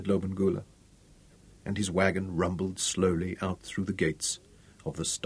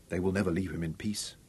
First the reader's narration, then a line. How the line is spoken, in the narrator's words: Robin said softly